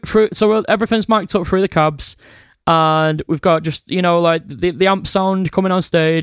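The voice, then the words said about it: Strong regional accent. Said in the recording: “my really mank accent”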